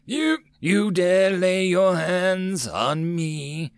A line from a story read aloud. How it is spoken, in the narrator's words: Titus sneered